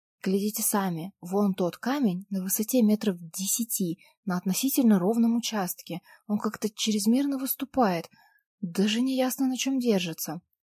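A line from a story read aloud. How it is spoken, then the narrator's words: Whispering. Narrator (Russian): зашептала я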